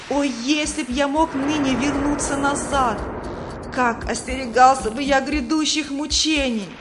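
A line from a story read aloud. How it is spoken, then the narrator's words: Wailing. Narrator (Russian): Третий вопил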